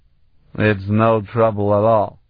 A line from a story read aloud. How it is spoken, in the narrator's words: a slurred voice outside said